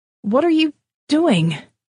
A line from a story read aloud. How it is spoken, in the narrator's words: shouted Lenny